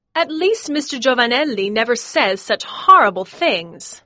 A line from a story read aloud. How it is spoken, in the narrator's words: she cried